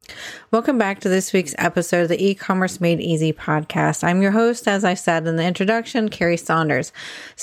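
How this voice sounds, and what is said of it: Strained voice. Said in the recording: “my voice sounds strained ... I'd been sick with the flu”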